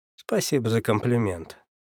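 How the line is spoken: Good-natured grumble. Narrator (Russian): проворчал я, совсем не обидевшись

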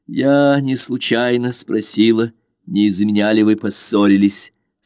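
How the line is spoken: Plain. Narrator (Russian): сказала Лиза

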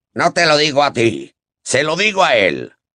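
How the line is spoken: Growled. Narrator (Spanish): gruñó Moody

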